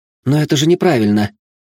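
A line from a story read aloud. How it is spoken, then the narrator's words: Passionate exclamation. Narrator (Russian): горячо воскликнула Альтая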